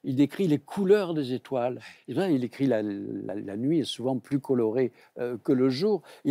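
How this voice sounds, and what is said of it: French provincial regional accent. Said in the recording (French): “je suis également provincial, comme on l'attendait en mon accent.”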